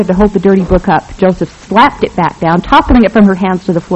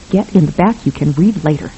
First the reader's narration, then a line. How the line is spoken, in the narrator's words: whispered fiercely